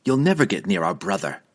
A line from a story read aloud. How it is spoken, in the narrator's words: Dinan replied sharply, his memories of his previous disastrous encounter with Drizzt still painfully clear